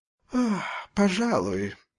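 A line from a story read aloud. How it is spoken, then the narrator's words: Lazy yawn. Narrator (Russian): зевнул мужчина лениво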